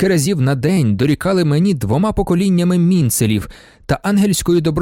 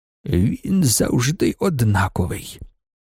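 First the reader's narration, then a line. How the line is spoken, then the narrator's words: Whisper. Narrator (Ukrainian): прошепотів Ігнац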